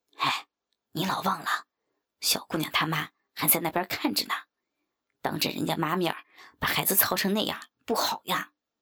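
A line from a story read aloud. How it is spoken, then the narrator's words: Quiet voice. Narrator (Chinese): 王五小声地说道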